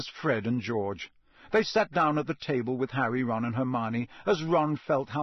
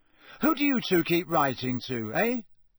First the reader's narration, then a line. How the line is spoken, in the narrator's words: said Ron